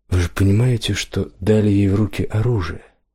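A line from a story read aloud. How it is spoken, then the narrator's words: Old man's rueful sigh. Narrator (Russian): Старый печатник сокрушенно вздохнул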